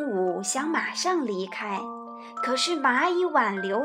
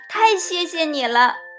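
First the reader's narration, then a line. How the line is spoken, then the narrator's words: Happy, laughing. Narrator (Chinese): 蚂蚁开心地笑了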